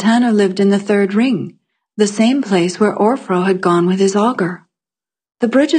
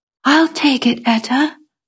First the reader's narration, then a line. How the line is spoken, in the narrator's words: I whispered to her